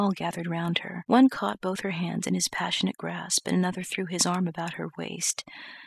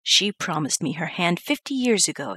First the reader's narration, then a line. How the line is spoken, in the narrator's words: exclaimed Mr